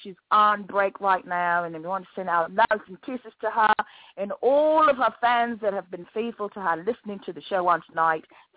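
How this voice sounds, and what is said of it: Put-on British accent. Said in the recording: “I'm putting on my British accent right now ... I love the accent. I could just be British.”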